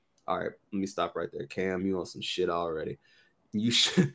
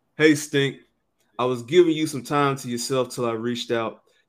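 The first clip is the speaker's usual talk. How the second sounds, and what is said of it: Imitates another person's voice. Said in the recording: “I'm going to try to do this in my Cameron voice.”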